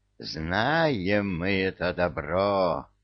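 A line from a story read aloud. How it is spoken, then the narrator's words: Fierce growl. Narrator (Russian): свирепо рычала Василиса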